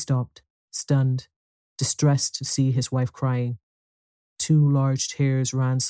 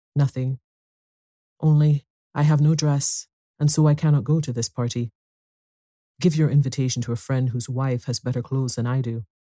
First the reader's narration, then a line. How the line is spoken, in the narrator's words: With great effort, overcame her grief and replied in a calm voice